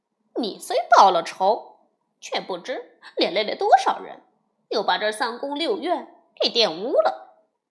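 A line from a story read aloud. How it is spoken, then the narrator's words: Laughing. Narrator (Chinese): 悟空笑道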